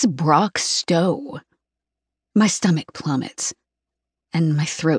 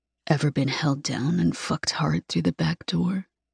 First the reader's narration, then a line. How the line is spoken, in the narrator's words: Brock whispers